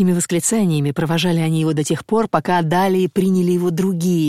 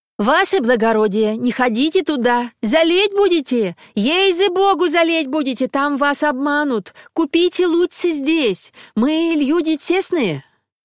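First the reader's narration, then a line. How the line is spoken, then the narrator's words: Shouting in unison. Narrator (Russian): провожатые его закричали все в один голос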